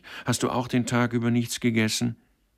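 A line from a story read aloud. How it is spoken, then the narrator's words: Pitying call. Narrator (German): rief mitleidig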